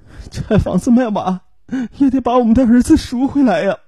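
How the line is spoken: Crying. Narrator (Chinese): 王若红哭着说道

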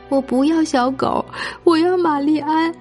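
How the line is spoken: Crying. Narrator (Chinese): 罗拉哭着说

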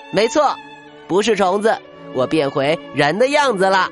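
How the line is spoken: Laughing. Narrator (Chinese): 卡夫卡笑了

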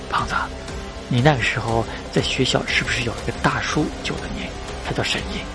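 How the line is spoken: Low voice. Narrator (Chinese): 低声道

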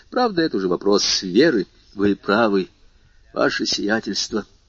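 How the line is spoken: Sighed. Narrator (Russian): вздохнул Бертуччо

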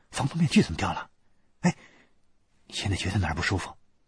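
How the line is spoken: Voice changed by anxiety. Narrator (Chinese): 薛立阳急得连说话的音儿都变了

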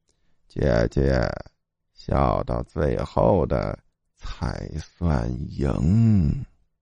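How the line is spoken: Soft strange laugh. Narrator (Chinese): 袁杰轻声怪笑道

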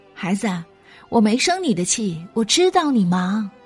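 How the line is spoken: Shouting while running. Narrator (Chinese): 边追着车跑边喊

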